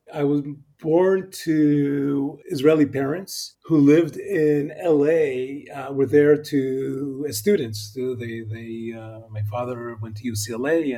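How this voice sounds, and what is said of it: American accent. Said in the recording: “you speak with such a wonderful American accent”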